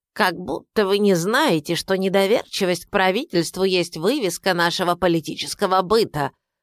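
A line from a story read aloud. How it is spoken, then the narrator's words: Creaky unpleasant voice. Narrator (Russian): произнес он скрипучим неприятным голосом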